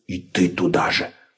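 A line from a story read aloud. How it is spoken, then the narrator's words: Snapping retort. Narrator (Russian): огрызнулся Лабан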